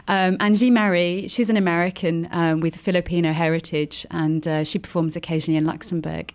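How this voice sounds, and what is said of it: British accent. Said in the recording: “as you can probably tell from my accent, I'm uh, I'm British.”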